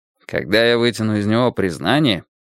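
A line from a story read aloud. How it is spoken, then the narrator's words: Gloomy grumbling. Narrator (Russian): мрачно пробурчал Мейсон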